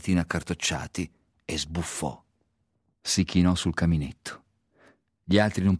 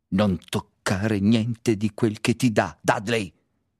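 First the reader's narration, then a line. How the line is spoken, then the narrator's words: Harsh tone. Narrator (Italian): Zio Vernon gli disse in tono aspro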